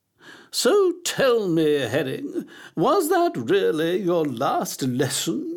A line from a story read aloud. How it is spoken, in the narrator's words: she asked, her voice bubbling like a pan of thick gloop on a stove